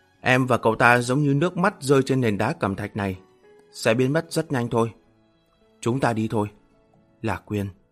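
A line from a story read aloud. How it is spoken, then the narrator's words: Sighing. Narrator (Vietnamese): Lạc Nguyệt thở dài, nói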